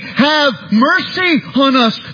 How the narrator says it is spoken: they cried

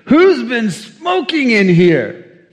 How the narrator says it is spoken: The lad pinched his nose and he exclaimed

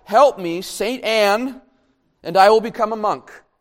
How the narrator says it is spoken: So terrified, in fact, that he cried out

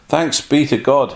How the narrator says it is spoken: exclaimed he

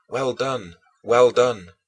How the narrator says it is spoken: Those around me thus cried out

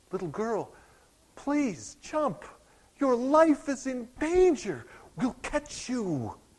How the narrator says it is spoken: They pleaded with her

